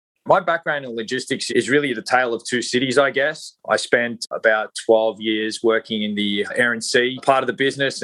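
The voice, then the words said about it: Australian accent. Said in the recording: “As maybe some of your listeners might have guessed from my accent, I am not a native of the US. I'm originally from Australia”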